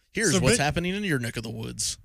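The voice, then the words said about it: Poor Al Roker weatherman impression. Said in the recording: “That was the worst Al Roker impersonation.”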